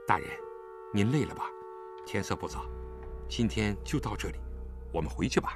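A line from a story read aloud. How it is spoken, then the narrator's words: Low voice. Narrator (Chinese): 李元芳低声对他说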